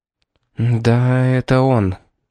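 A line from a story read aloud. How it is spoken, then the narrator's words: Hoarse voice. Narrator (Russian): сказала Роза хриплым голосом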